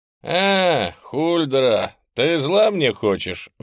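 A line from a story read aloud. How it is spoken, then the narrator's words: Indignant drawl. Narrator (Russian): возмущенно протянул Ренг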